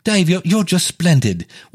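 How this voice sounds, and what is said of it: Mock British accent. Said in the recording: “let's say I start to date somebody from the UK ... that accent's driving me crazy”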